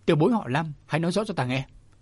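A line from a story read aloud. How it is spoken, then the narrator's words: Old man, restrained anger, slow. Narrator (Vietnamese): Lạc Hồn lão quỷ Bùi Nguyên lão tức giận lắm nhưng cố dằn lại, từ từ đáp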